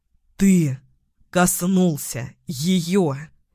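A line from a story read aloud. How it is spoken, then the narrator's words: Growled. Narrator (Russian): прорычал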